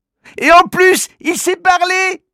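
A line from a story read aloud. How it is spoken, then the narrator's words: Exclaims. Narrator (French): s'écrie Manu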